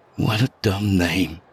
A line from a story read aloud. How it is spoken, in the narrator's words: I muttered, unaware I'd spoken aloud